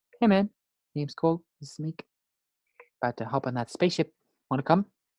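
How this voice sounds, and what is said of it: Imitates the Korg character voice. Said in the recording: “my Korg impression. You do one.”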